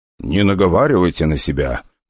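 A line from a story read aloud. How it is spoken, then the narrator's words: Gentle, smiling. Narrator (Russian): произнес я, мягко улыбаясь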